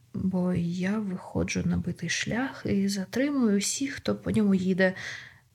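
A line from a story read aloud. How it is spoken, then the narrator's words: Ashamed mutter. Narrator (Ukrainian): пробурмотів з відчуттям пекучого сорому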